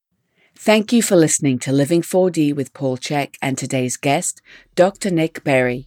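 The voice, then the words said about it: British accent, attractive female voice. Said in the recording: “her most amazing British accent and beautiful, sexy voice”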